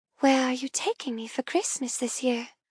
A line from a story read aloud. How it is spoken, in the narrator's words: murmur softly